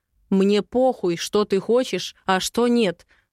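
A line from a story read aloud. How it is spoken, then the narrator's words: Through gritted teeth. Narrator (Russian): цедит он сквозь зубы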